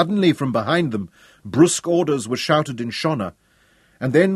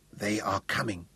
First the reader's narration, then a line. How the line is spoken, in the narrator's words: whispered the blinded Matabili